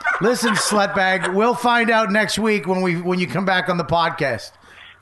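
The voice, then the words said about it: Philadelphia accent. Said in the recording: “I got a Philly accent now.”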